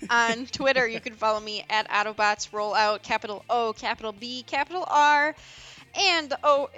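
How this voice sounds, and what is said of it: Usual voice. Nothing is said of it.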